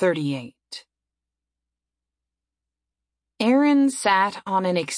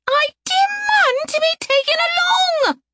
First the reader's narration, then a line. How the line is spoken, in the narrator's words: had screamed